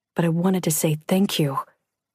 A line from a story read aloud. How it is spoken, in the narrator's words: Alex murmured